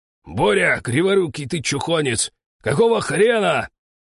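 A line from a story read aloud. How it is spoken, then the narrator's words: Angry yell. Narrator (Russian): заорал старший на Бориса-предателя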